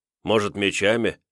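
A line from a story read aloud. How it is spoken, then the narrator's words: Smirking grunt. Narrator (Russian): хмыкнул Давмонт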